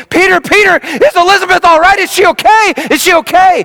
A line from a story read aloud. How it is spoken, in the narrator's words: She came running screaming